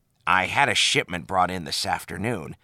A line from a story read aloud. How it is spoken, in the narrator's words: sighed Quark